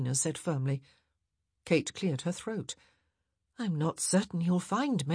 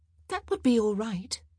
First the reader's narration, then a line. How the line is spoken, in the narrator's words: Edwina said happily